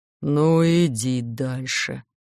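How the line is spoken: Gloomy grumble. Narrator (Russian): буркнул тоскливо

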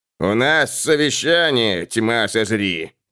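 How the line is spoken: Grumbling. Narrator (Russian): проворчал Блэкбери

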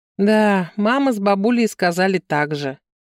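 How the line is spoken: Sighing. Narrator (Russian): сынок вздохнул

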